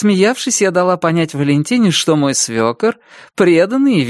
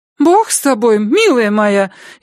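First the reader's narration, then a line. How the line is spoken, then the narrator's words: Frightened exclamation. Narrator (Russian): испуганно замахала руками Валя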